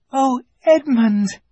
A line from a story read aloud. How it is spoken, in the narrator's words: she cried